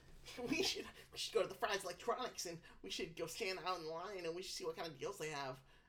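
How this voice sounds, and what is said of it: Awful nerdy impression. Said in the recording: “that was an awful impression. I don't know. I never even sounded like that.”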